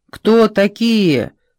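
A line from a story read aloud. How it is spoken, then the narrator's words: Shouted. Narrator (Russian): закричал Филипповский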